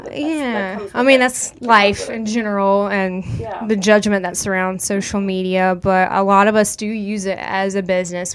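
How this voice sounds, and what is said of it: American country accent. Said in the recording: “this is my country accent coming out right now”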